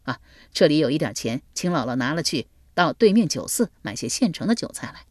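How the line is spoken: Laughing. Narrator (Chinese): 笑道

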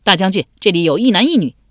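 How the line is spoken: Calling out. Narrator (Chinese): 有人回头叫道

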